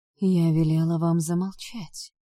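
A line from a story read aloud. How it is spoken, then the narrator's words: Unexpectedly calm, strange voice. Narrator (Russian): неожиданно спокойно произнесла я чужим голосом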